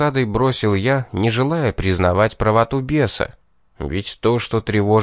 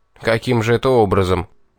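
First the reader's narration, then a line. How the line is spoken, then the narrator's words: Skeptical snort. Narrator (Russian): недоверчиво хмыкнул я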